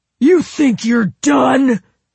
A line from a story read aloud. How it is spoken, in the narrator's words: screamed